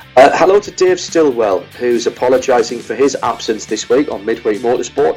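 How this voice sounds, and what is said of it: Louder radio presenter voice. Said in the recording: “You're substantially louder than you were. ... I have my radio voice on now”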